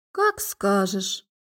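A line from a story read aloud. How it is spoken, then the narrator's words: Lazy. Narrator (Russian): лениво откликнулась она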